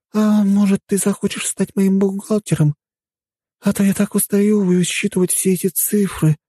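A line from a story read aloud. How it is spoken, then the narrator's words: Sighing. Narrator (Russian): вздохнула Вика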